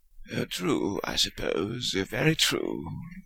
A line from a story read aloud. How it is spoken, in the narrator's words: Fudge murmured